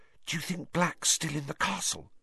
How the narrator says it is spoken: Hermione whispered anxiously

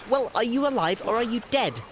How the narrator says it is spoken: asked Bilbo quite crossly

